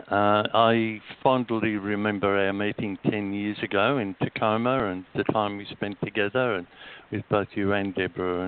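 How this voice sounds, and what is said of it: Australian accent. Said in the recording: “he does have an accent that's not quite from Brooklyn and not quite from Atlanta, Georgia, but rather from perhaps a place called Australia”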